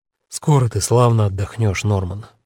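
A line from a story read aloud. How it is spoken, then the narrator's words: Soft. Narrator (Russian): мягко начал он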